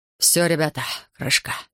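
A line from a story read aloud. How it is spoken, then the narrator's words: Hoarse rasp. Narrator (Russian): прохрипел он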